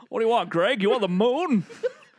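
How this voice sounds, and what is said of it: Poor impression of a film actor. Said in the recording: “Terrible Jimmy Stewart impersonations.”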